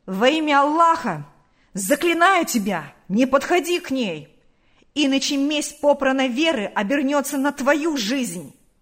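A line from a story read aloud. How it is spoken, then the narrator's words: Angry shout. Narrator (Russian): крикнул озлобленно Наташе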